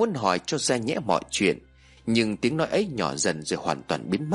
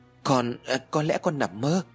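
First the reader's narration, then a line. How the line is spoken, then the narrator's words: Stammering. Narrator (Vietnamese): Ái lắp bắp trả lời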